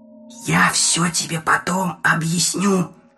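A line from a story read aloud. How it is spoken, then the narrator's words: Whisper. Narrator (Russian): прошептал Приз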